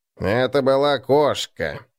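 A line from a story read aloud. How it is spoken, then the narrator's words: Gloomy objection. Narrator (Russian): возразил Гнуб, мрачно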